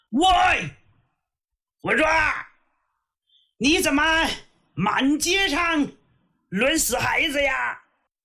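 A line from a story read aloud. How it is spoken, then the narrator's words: Loud yell. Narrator (Chinese): 李元霸喊了一嗓子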